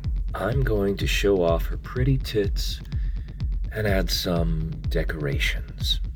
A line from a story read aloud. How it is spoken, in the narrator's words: my owner replied